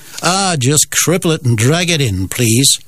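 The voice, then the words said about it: Bad put-on Canadian accent. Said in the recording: “That's possibly the worst Canadian accent you'll ever hear”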